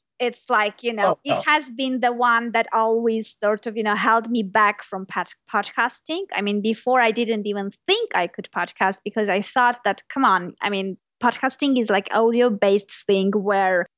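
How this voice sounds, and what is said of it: Non-native English accent. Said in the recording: “My accent ... if you're speaking a language with accent”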